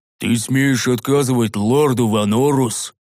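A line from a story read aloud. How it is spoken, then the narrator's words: Roaring big brute. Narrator (Russian): Взревел огромный детина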